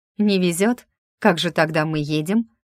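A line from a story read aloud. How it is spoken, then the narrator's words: Snorting, hiding confusion. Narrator (Russian): фыркнула я, пытаясь за не очень ладной шуткой скрыть смятение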